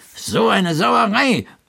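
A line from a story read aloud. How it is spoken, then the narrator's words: Growl. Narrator (German): knurrte er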